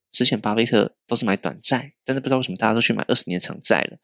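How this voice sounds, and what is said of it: Whispering aside. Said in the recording (Chinese): “小声说”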